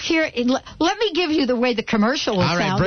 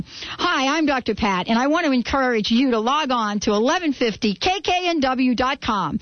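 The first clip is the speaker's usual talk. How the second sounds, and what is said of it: Commercial radio announcer voice. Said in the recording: “Let's do it in our commercial radio voice.”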